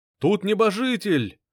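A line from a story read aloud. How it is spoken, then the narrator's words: Encouraged crowd shouting. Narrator (Russian): кричали ободренные союзники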